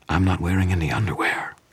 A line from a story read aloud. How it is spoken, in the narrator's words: Susan whispered into my ear